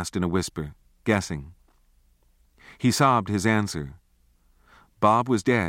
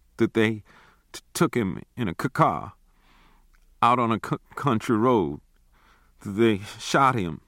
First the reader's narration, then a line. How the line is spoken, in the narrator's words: Ned whimpered